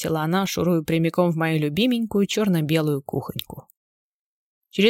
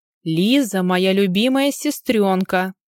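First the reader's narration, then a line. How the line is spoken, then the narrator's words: Warning bark. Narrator (Russian): рявкнула ей в ответ, предупреждая, чтобы она фильтровала свои словечки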